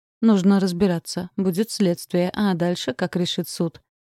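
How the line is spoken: Plain. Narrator (Russian): ответил директор

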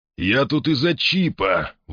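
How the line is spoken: Strained, forced out. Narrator (Russian): выдавил он

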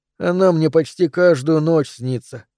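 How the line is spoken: Child's sigh. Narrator (Russian): вздохнул мальчик

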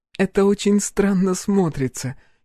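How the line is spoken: Giggling. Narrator (Russian): хихикнула Аша

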